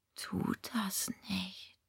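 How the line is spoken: Whispered. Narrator (German): flüsterte Sebastian

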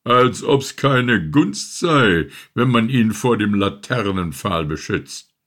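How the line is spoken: Grumpy calling out. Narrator (German): rief dieselbe brummige Rotkappe

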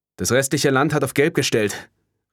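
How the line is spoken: Calling back. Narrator (German): rief ihr Kollege Grid Operator Giuseppe Santrelli zurück

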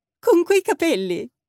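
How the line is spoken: Laughing, bright. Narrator (Italian): rise Jet, sempre brillante

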